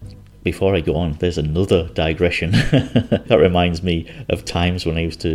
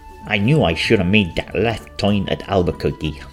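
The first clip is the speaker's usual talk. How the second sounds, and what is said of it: Cartoon character voice impression. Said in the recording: “I remember Bugs Bunny saying ... Apologies for the accent, but that's what he sounded like in my head.”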